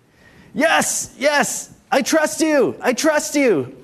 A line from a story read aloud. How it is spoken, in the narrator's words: cried the man